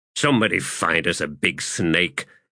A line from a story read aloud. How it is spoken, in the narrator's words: Mathok growled